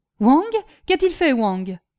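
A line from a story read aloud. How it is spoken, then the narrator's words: Quick sharp reply. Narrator (French): répliqua vivement Kin Fo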